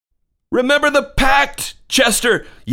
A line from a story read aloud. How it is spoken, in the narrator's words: yelled Thomas